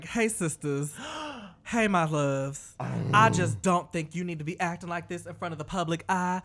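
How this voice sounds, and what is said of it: Put-on white southern girl accent. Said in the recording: “I'm giving Monique a white girl southern accent”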